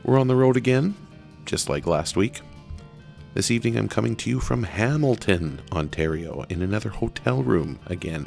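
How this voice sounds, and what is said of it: Soft, smooth, hushed jazz-radio voice. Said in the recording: “put on my jazz voice, my smooth jazz voice, to make sure I'm not waking anybody up in the other room”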